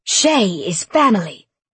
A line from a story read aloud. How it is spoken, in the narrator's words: Sarah declared in a vicious voice